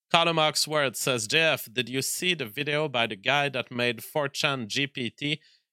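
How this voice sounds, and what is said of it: French-accented English. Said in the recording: “I was much more French back then... I still have a major accent”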